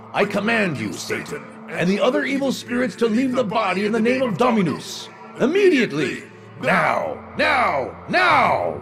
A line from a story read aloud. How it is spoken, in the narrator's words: The voice shouted